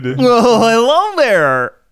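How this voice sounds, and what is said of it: Wacky sitcom next-door neighbor voice. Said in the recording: “do that voice ... my sitcom wacky next door neighbor voice”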